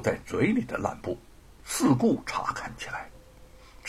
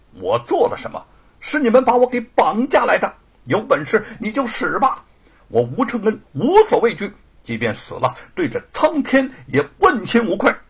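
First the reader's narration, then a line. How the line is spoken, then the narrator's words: Loud voice. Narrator (Chinese): 吴承恩 大声的说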